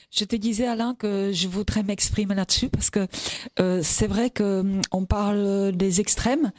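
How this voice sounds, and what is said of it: Distinctive sing-song non-southern accent. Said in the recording (French): “accent si particulier, qui n'est pas l'accent du Sud et qui est un accent qui est chantant également”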